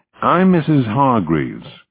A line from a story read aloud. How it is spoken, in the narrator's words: she said